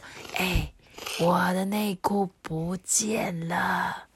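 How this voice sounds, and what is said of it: Quiet, hushed voice. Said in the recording (Chinese): “小声的向大家求救说”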